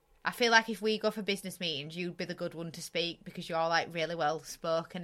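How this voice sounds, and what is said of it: Bradford accent. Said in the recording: “that Bradford accent ... coming out from me and”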